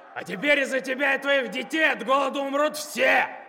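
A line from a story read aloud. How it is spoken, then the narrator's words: Man yelling back. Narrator (Russian): Орал в ответ какой-то тип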